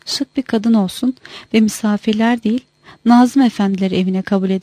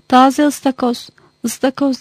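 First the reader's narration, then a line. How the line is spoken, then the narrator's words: Shouting. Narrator (Turkish): diye bağırdığını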